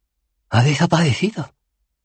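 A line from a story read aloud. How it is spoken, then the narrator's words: Exclamation. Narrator (Spanish): exclamó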